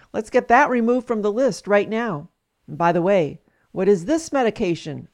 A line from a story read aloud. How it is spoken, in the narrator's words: asked